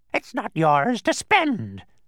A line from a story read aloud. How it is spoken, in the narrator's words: the bird shrieked again